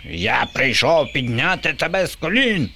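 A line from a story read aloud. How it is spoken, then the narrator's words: Shrieking. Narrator (Ukrainian): верещав Боба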